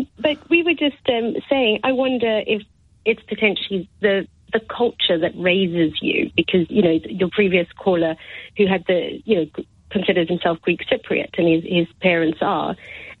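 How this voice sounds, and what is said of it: Slight South African accent. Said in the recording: “you still got a bit of an accent, haven't you? ... I'm one of the few people in this country that actually really likes South African accents.”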